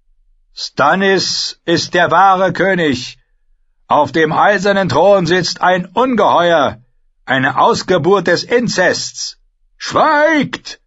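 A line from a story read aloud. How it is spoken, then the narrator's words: Roared. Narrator (German): brüllte Sir Kevin Lannister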